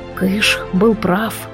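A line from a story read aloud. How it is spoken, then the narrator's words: Whisper. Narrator (Russian): шепнул он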